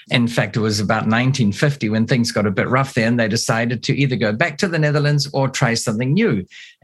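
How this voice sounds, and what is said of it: New Zealand accent. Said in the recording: “I heard your accent ... another Kiwi, another New Zealander ... obviously I have an accent over here”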